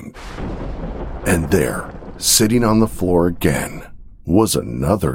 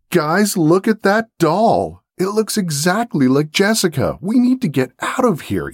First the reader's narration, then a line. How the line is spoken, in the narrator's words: Ethan shouted